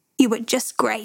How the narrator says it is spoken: said

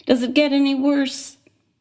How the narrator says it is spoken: Him laughing

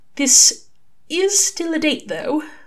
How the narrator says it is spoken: Aziraphale said hesitantly

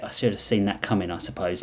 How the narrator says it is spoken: Lionel muttered

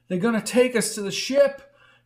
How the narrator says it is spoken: he cried as he ran

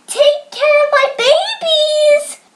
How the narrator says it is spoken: called out

